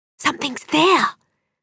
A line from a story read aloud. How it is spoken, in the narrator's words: whisper